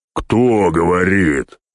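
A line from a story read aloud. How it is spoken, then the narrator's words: Yelling big man. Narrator (Russian): заорал здоровило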